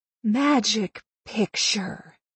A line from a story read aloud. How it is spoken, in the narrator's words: I whispered, trying to mimic Dorothy's sharp command, only quietly